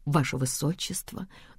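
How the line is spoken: Quiet, mumbled, reluctant. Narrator (Russian): делают это так тихо и невнятно, словно из-под палки

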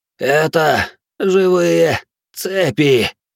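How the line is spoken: Strained wheeze. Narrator (Russian): С усилием прохрипел Торий

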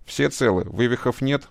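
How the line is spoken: Plain question. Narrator (Russian): спросил Шаров

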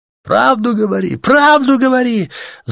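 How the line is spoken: Shouting crowd. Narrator (Russian): закричали в ответ невидимому диктору

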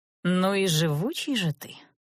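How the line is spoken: Drawled, admiring and mocking. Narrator (Russian): Сглотнув со смесью восхищения, издевки протянула я

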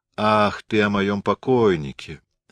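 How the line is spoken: Lazy. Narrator (Russian): лениво сказала Марта

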